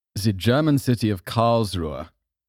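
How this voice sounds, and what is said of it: Mock German accent, not very good. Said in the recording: “That was my German accent. It's probably not very good.”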